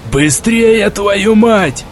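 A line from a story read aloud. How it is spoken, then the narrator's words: Yelling. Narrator (Russian): орал кто-то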